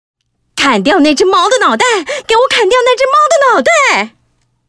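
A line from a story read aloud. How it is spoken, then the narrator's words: Shouting. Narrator (Chinese): 皇后啊又开始大喊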